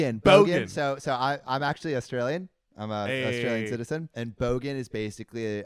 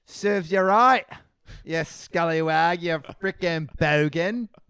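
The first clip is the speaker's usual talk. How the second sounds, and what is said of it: Put-on Australian accent. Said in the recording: “Wait, can I get serves you right in an Australian accent?”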